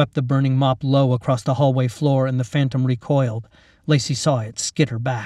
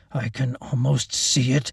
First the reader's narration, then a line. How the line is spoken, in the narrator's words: he growled